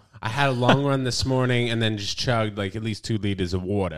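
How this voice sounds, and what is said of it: Long Island accent. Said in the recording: “with like a Long Island accent”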